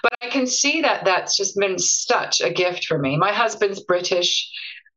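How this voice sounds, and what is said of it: Mixed, mishmash accent. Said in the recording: “everyone says I have a bit of a mishmash of an accent.”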